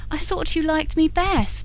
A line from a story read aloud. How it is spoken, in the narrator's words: with an upward, sobbing breath